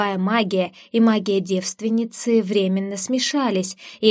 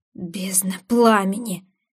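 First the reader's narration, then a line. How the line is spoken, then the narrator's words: Breathed out. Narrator (Russian): выдохнул Айден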